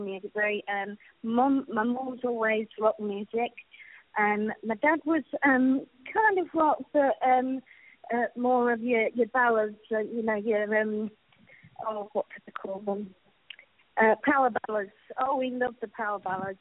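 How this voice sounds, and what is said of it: Rich British accent. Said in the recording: “you have a very, very rich accent ... it sounds like you're from the UK”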